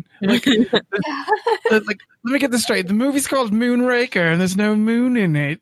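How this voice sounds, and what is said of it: Deliberately bad British accent. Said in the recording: “Why did y'all become Austin Powers? ... I was going for a shitty accent for that one. I could do a better British accent.”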